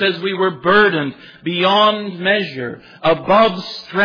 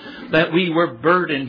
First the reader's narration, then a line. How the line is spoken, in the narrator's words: he says